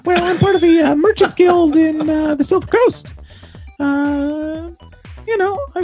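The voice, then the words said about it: Very high-pitched female gnome voice. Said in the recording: “Female gnome voice. ... it's gotta be way up here. ... a high voice because you're a small lady. ... oh, that's that's that's really high.”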